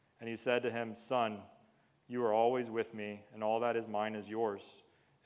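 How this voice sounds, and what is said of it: Flat monotone reading voice. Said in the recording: “bearing with me in my monotone voice”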